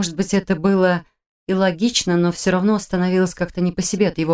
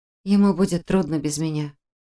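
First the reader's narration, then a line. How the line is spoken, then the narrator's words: Mutter. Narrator (Russian): пробормотала я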